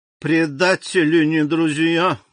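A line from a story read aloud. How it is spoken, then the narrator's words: Muffled grumble. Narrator (Russian): глухо проворчала Карконта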